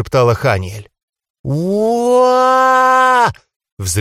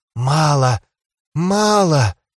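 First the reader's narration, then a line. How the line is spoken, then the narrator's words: Whispered. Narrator (Russian): шептала Ханиэль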